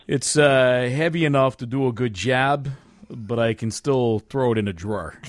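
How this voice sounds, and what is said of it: Tough Chicago union heavy voice. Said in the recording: “crazy voice ... I'm going to do it as a Chicago Union heavy”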